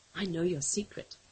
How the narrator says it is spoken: whispered

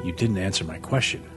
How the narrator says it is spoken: Max said gently

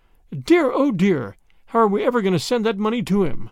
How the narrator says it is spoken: she exclaimed

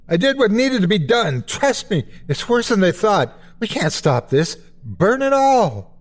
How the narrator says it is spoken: He screams

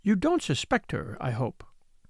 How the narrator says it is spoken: added, in conclusion, very earnestly

